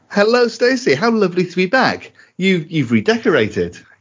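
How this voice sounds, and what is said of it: Doctor Who character voice. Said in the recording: “in my best Doctor Who voice”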